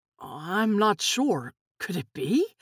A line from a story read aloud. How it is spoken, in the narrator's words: Nick muttered